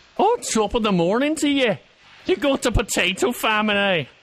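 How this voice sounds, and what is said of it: Put-on Irish accent. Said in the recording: “Do Irish accent”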